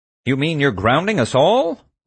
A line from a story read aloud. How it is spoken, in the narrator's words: Lars asked indignantly